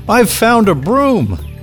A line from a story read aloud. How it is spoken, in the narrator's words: shouted